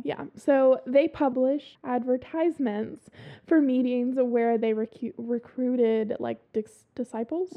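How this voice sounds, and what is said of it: Southern American drawl. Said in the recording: “my southern accent is getting right there in it. ... That drawl.”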